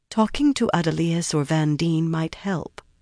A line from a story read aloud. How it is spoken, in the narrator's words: she said gently